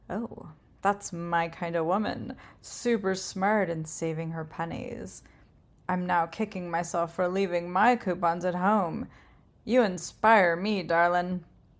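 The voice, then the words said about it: Sultry, sexy voice. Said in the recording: “A sultry, sexy voice”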